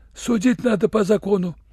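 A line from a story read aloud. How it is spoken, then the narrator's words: Uncertain. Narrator (Russian): Татарин неуверенно добавил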